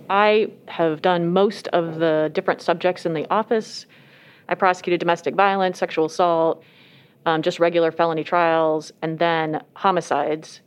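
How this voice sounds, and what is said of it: Muffled voice through a mask. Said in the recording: “wearing a mask. That's why her voice sounds a little muffled.”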